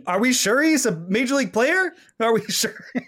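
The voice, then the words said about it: Bill Simmons impression. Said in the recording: “my Bill Simmons impression”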